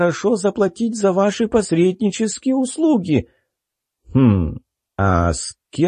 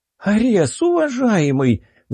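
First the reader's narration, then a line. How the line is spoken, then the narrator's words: Pleading queen. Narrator (Russian): взмолилась королева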